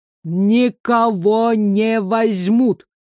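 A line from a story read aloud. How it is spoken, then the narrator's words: Clipped, syllable by syllable. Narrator (Russian): По слогам процедил он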